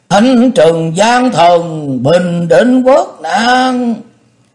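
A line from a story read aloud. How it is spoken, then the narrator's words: Crowd's excited cheering. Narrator (Vietnamese): Chư quân phấn khởi reo hò, nhao nhao hò hét phấn khích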